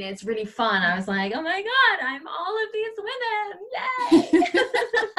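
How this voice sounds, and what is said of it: California accent. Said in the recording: “I love your California accent.”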